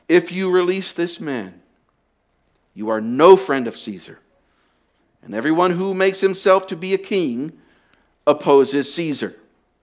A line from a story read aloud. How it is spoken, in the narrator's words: They cried out saying